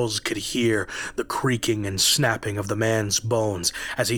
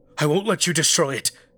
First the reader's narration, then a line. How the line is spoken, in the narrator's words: Charles cried out